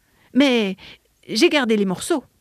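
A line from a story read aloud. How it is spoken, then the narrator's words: More confident voice. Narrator (French): ajouta-t-il d'une voix plus assurée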